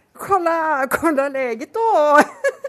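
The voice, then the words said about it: Parodied Swedish accent. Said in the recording (Norwegian): “Hvordan parodierer nordmenn svensker ... Parodier en svenske.”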